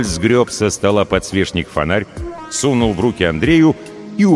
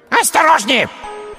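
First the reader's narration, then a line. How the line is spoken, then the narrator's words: Small child's shrill squeal. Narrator (Russian): взвизгнул малявка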